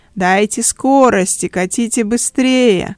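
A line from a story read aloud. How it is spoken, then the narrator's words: Loud cheerful laughter. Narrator (Russian): задорно хохотал на весь этаж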